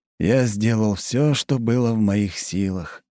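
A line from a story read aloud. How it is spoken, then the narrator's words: Sighing. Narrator (Russian): вздохнул Плотников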